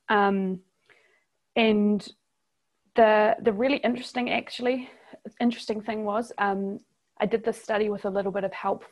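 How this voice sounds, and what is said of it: New Zealand accent. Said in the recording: “my accent, I'm from New Zealand, not Australia.”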